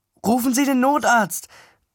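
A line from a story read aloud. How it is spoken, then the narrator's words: Called out. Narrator (German): rief ich der Frau zu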